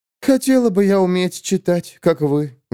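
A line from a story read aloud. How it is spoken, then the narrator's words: Sighed. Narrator (Russian): вздохнула Линдси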